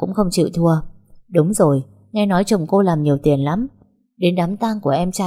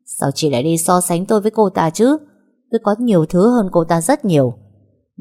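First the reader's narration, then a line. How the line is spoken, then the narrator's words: Through gritted teeth. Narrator (Vietnamese): Linh nhíu mày, không quát ầm lên mà nghiến răng nói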